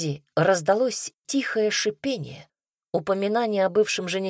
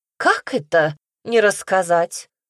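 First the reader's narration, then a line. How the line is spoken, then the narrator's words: Exclaiming mother. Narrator (Russian): воскликнула матушка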